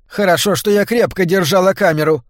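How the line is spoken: Grumbling. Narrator (Russian): пробурчала та

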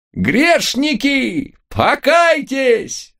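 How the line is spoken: Wild howling voice. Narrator (Russian): Дурным голосом взвыл бывший бог

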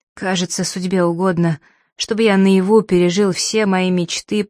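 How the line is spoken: Hoarse rasp. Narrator (Russian): прохрипел он

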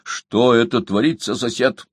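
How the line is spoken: Stern. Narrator (Russian): спросил он строго

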